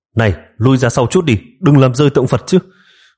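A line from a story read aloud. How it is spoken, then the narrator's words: Hurried shout. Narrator (Vietnamese): Triệu Ngọc vội vàng quát lên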